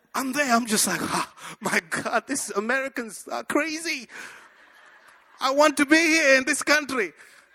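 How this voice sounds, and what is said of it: Speaks with a foreign accent. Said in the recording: “I said it just like that with my accent.”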